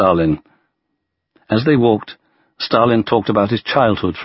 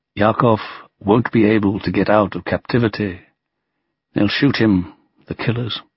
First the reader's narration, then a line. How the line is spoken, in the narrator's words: Stalin answered in a subdued voice